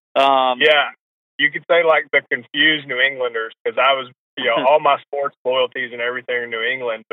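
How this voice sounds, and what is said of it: Southern American accent. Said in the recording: “I have a very Southern accent.”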